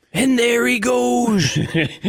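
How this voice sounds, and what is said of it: Imitates a sportscaster's voice. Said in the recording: “impersonation of Al Michaels? It's very specific. It doesn't last long. ... your Al Michaels impersonation.”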